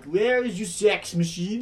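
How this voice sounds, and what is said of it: Imitates Borat character voice. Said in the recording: “that Borat was spot on ... Bad Borat impression.”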